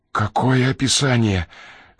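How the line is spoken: Hoarse strained voice. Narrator (Russian): хрипло выдавил Ренли

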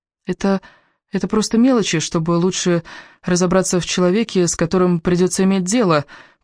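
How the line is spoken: Uncertain, defensive. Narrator (Russian): пыталась оправдаться Элис, но ее голос звучал неуверенно

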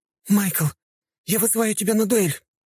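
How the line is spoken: Nearly shouting. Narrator (Russian): только что не закричала Синди

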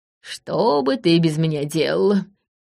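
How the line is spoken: Mock sigh, smug old man. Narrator (Russian): притворно вздохнул дед, страшно довольный собой

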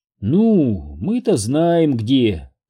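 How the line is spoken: Purring. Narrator (Russian): промурлыкала Лизбет

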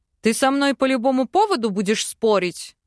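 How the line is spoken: Impatient bark. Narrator (Russian): рявкнул Арван, потеряв терпение

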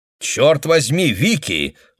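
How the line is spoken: Exclaiming. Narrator (Russian): воскликнул Дуэйн

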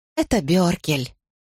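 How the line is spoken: Sigh. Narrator (Russian): я вздохнула

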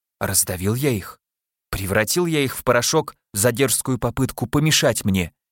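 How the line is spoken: Male mumble. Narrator (Russian): пробормотал он

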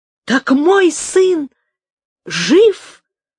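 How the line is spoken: Delighted exclamation. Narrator (Russian): воскликнул герцог с восторгом

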